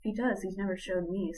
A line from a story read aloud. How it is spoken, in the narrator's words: sighed Gwen